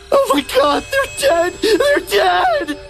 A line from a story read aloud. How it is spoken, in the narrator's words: He shrieked, his voice cracked into something that wasn't quite human